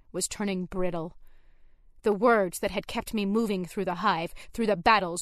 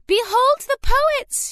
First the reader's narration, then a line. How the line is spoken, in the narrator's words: cried